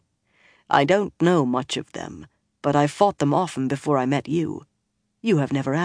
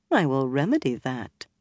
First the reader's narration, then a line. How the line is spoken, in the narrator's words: the Aes Sedai said dryly